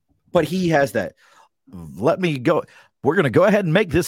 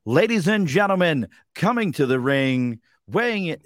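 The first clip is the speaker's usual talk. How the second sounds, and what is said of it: Imitates a ring announcer's voice. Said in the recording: “Like, that's Mike's voice. ... announcer voice”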